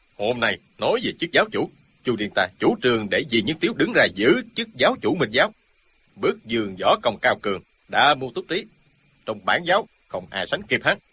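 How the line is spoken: Stubborn loud shout. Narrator (Vietnamese): Y nổi tính gàn, chẳng còn biết phải trái gì nữa, quát to

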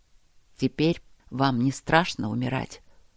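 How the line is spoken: Hoarse, breathless question. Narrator (Russian): спросил Макс хрипло, переводя дыхание

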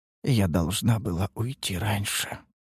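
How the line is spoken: Upset mutter. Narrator (Russian): пробормотала она расстроенно

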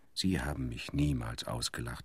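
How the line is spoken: Plain. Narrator (German): sagte

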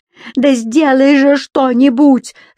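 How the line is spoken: Daughter yelling over crowd. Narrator (Russian): заорала, перекрикивая шум толпы дочь

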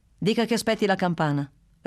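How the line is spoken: Curt, dry reply. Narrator (Italian): rispose Bruno, così seccamente

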